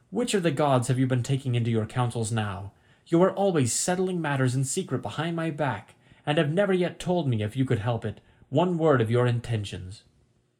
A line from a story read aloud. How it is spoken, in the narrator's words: she cried